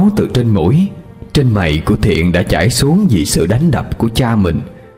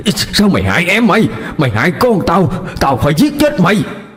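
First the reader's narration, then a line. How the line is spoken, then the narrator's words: Screaming rage. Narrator (Vietnamese): ông Bá Hộ gào thét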